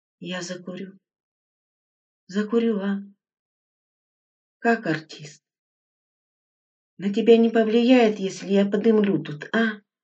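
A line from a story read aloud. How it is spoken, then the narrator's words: Fussy muttering. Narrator (Russian): бормоча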